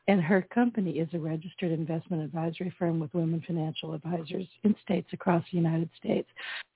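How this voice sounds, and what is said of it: Hoarse, strained voice. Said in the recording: “I'm losing my voice. I'm so sorry. ... If there's any pollen, it has failed me.”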